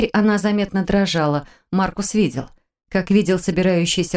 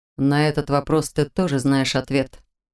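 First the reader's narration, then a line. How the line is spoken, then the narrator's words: Soft reply. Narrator (Russian): мягко ответил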